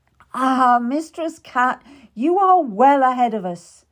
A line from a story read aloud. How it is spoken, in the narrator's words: Master Cromwell laughed